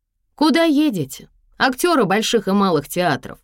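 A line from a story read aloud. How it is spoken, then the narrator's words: Shouted, holding back laughter. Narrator (Russian): крикнула она, будто сдерживая смех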